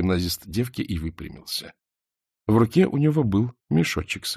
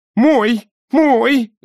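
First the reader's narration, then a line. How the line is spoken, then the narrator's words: Wailing scream. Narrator (Russian): завопила тетка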